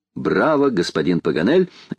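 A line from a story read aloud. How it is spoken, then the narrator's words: Cheerful laughter. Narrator (Russian): весело смеялась леди Элен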